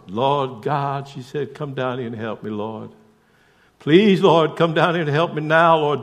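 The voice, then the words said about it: Southern US accent. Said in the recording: “I've got this southern accent down ... I can talk like I'm from there too.”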